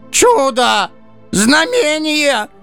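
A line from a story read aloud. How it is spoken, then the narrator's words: Shouting, elder Druze. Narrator (Russian): прокричал один из друзов, вероятно, старший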